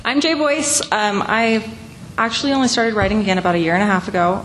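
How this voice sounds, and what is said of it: Hoarse, failing voice. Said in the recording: “losing my voice.”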